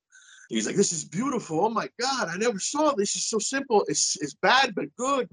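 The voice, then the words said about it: Heavy thick Italian accent. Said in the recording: “in a very heavy, thick Italian accent”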